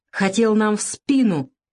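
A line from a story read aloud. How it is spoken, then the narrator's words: Strained, dry-lipped. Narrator (Russian): пересохшими губами выдавил он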